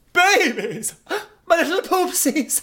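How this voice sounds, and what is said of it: Imitation of a Disney villain. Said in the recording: “I'm just going to do an imitation.”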